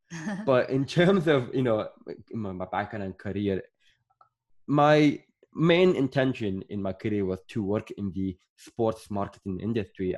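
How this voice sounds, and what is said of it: Mixed Irish, Scottish and English accent. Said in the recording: “I was born in Sudan and I grew up in Northern Ireland, but I lived in Scotland. I lived in England. ... my accent is just all over the place. It's just confusing.”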